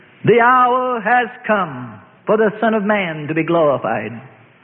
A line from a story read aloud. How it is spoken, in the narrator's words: Loudly he called